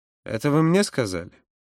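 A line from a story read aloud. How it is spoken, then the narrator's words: Icy question. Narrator (Russian): спросил Юра ледяным тоном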